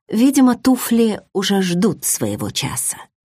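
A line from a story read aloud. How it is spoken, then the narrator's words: Muttered to herself. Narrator (Russian): пробормотала себе под нос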